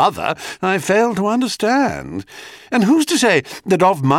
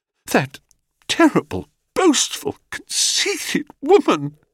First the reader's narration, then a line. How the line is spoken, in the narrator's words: she choked